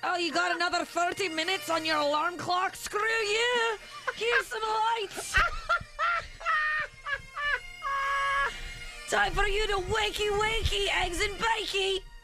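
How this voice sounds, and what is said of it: Convincing put-on Scottish accent. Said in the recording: “That was the best Scottish accent I've ever heard you do. ... That was amazing.”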